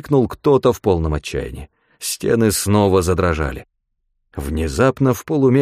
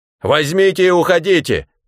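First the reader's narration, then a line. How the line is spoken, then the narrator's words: Shout. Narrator (Russian): крикнул он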